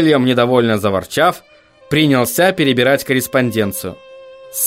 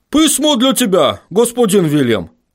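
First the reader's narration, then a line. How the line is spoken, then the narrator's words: Shouting gnome. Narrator (Russian): крикнул один из гномов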